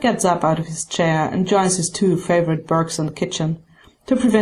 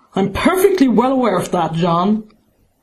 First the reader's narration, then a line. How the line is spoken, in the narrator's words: he snaps